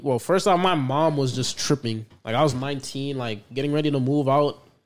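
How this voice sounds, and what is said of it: Speaks with a noticeable accent. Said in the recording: “Your accent, you're the accent ... it has an accent to it ... he has an accent”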